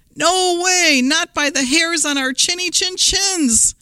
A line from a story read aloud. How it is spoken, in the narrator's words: cried the three little pigs